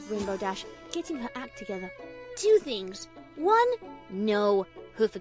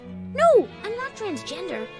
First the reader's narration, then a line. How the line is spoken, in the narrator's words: shouted Rainbow Dash